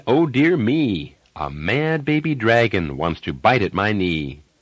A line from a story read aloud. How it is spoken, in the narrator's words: Dad exclaimed